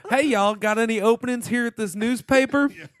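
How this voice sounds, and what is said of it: Put-on Southern accent. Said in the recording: “he should have a Southern accent ... pulling out his hey y'all”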